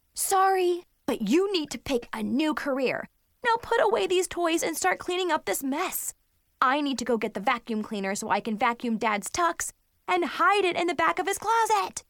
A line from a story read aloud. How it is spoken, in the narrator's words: I yelled at my bratty sister